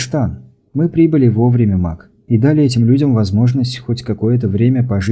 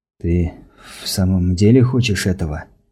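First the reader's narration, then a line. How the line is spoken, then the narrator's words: Breathy male. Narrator (Russian): выдохнул он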